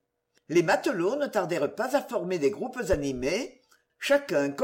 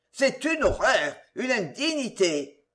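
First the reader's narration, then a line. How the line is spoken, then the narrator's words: Shouted. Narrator (French): cria l'un des matelots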